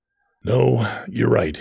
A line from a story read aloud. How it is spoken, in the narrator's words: he sighed